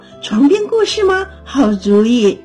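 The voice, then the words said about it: Chirping birdlike voice. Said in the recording (Chinese): “王后用小鸟啾啾叫的声音说”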